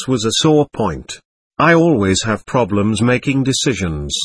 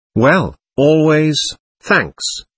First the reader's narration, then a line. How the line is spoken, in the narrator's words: I said slowly